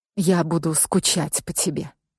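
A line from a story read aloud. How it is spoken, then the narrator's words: Quiet, soft. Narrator (Russian): тихо проговорила Петра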